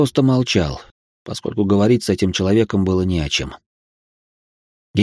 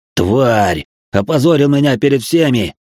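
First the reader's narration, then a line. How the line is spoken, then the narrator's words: Furious yelling. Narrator (Russian): орал он, продолжая избивать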